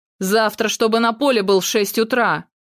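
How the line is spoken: Thundering, restrained. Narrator (Russian): прогремел Виктор, старательно сдерживая все свои порывы

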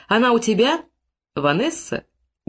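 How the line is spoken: Remarkably calm. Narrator (Russian): Голос Тедди звучал поразительно спокойно

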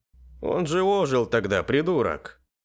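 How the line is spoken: Angry barking mage. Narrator (Russian): злобно гаркнул маг

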